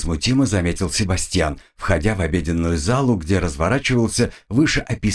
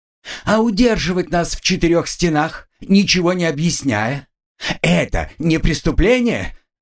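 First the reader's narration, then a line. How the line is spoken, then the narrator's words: Girl's shriek. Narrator (Russian): завизжала девушка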